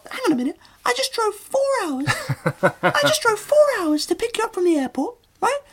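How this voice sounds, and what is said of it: High-pitched comic character voice. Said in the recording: “Why has your voice got such a high voice? ... That's how my penis would talk”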